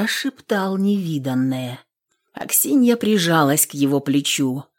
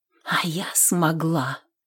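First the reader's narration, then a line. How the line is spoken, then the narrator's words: Whisper. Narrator (Russian): шептала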